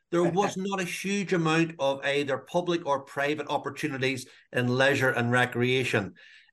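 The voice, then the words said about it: Northern Irish accent. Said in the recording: “growing up in Northern Ireland, I think the audience can hear my accent right from the off”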